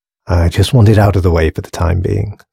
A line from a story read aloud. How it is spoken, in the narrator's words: sighed James